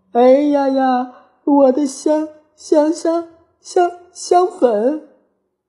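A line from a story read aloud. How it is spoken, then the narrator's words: Aggrieved crying. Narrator (Chinese): 蔷薇公主委屈巴巴的哭道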